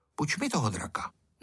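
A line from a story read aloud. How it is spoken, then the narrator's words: Said quietly. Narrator (Czech): řekl tiše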